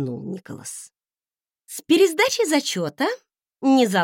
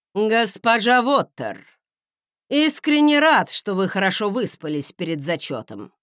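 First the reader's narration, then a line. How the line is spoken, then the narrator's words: Grumbling. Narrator (Russian): проворчал магистр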